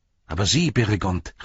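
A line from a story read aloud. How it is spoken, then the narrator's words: Called out. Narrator (German): rief er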